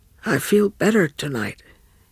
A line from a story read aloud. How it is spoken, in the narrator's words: he murmured